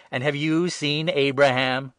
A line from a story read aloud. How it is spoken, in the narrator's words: the Jews exclaimed